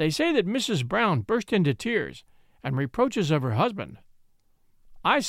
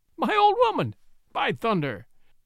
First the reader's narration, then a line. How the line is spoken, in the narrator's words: dropping his cards with an hysterical laugh, greeted as